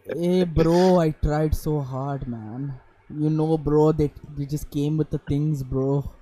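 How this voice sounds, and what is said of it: Put-on Indian accent. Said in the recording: “let me try my Indian accent”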